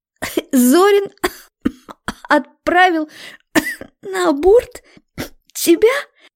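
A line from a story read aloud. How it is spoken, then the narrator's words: Tearful hoarse astonished woman. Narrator (Russian): Сквозь слезы надсадно, хрипло выдавила она, и в голосе такое изумление, что словами не передать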